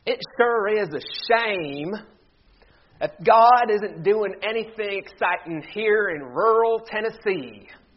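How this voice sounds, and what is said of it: Put-on Tennessee accent. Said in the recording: “you have to say this with a Tennessee accent to really get the gist of it. And I'm going to do my best, so please, a little grace this morning. ... That's the best I can do.”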